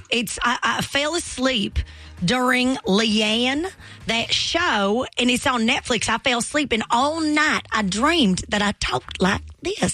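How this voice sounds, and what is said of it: Put-on Southern US accent. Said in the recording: “new southern accent ... my inner thoughts have become Southern”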